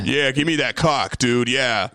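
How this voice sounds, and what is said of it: Deliberately low-pitched voice. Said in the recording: “You gotta do it in a low voice”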